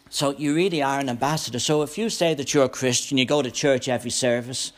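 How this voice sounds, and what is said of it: Irish accent. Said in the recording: “I was an ambassador for Ireland ... I'm not going to lose my accent.”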